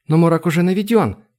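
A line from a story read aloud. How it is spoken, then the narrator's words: Exclaiming. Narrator (Russian): воскликнула Айлани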